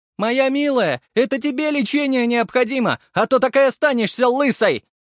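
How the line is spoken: Shouted. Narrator (Russian): выкрикнула мама

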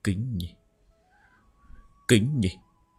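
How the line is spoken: Tearful mutter. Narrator (Vietnamese): Lý Thông Nhai xoa đi nước mắt, hắn hít vào một hơi thật dài, lẩm bẩm

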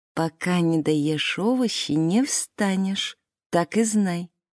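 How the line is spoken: Smiling whisper. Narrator (Russian): приятно улыбаясь гостям, прошептала Муре

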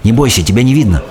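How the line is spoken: Plain. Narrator (Russian): сказала мне бабушка

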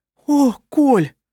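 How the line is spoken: Moaning. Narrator (Russian): простонала Анна Мария

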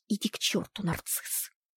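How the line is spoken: Hissed. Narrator (Russian): прошипела

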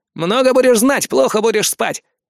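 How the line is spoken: Grumbling in pain. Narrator (Russian): проворчал Фома, морщась от боли в руке

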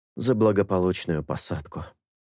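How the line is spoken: Whispered. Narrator (Russian): прошептал Анка

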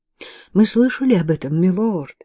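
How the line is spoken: Slightly trembling voice. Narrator (Russian): ответила Анна чуть дрожащим голосом

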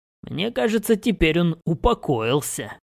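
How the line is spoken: Chuckling. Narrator (Russian): хохотнул я

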